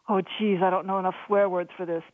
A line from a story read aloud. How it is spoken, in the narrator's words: Billy gasped